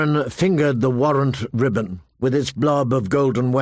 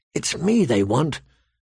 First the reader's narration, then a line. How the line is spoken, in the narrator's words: Arya whispered back